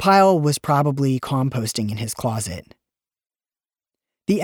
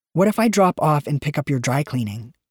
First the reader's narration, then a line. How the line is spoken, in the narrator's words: asked